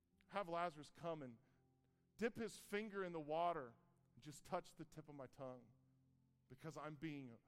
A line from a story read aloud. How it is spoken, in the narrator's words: the rich man, even in hell, he cries out